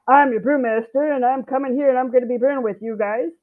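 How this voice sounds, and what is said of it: Assertive, grown-up commanding voice. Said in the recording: “put on my big girl voice”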